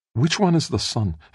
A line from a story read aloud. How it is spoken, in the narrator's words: Felicia asked, her voice suddenly wistful